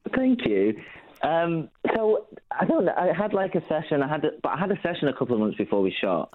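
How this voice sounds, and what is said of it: Strong non-American accent. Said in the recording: “you've got a very strong accent”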